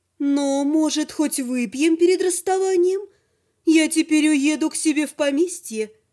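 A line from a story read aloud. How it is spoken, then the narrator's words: Cooing woman. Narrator (Russian): проворковала женщина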